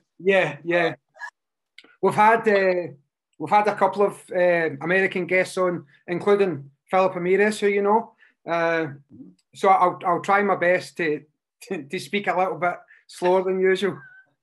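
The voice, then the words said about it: Scottish accent. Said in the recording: “we're in Scotland, uh, just outside Glasgow ... the accent was a dead giveaway ... I love the accent”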